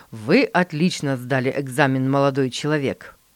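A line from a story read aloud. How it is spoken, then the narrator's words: Plain. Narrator (Russian): сказал экзаменатор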